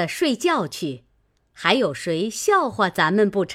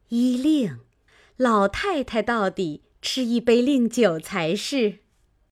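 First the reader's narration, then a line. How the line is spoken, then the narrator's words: Smiling. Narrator (Chinese): 薛姨妈笑道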